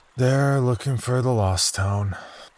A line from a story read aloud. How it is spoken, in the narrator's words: he sighed regretfully